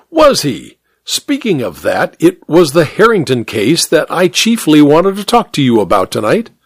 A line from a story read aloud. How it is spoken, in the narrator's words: Hare exclaimed